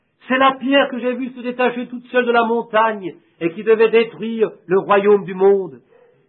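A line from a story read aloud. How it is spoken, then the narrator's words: Shouting. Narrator (French): Et il cria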